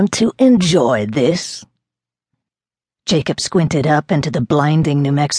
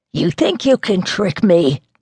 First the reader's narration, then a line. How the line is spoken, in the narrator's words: Leroy snarled